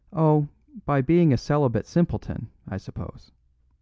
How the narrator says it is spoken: said

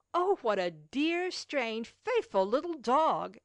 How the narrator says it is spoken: exclaimed Baptiste

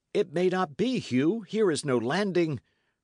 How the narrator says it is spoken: cried Dick

